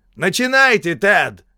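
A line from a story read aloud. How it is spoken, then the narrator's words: Shouted. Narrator (Russian): крикнул Пламмер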